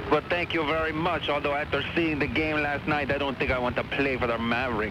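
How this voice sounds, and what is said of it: Exaggerated French accent. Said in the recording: “You really are French, aren't you, all the way? ... can't you tell by my ridiculous accent?”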